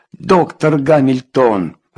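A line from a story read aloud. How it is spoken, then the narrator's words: Yelling. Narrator (Russian): завопил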